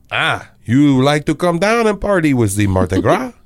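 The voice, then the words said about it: Put-on French accent. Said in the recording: “So what would it sound like in a French accent?”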